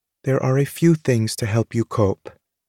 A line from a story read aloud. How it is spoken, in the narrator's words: she says evenly